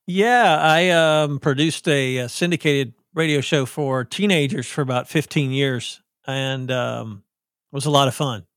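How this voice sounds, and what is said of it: Southern US accent, radio voice. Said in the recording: “You got a good radio voice... I sound like I'm from the South”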